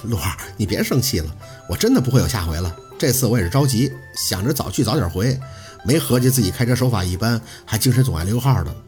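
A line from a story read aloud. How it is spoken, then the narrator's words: Foolish laughing. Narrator (Chinese): 宝四佯装听不出好赖话般的傻笑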